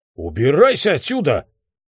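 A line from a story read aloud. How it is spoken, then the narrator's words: Barked. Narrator (Russian): рявкнул Лео и сказал Барни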